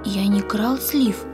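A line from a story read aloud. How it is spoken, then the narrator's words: Timid objection. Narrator (Russian): робко возразил Яша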